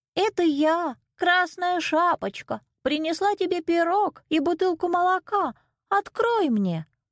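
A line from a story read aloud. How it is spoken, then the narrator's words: Thin high disguised voice. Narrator (Russian): ответил волк тонким голоском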